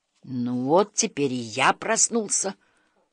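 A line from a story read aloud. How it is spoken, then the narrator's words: Sleepy grumble, coughing. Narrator (Russian): буркнул Иккинг, кашляя с просонок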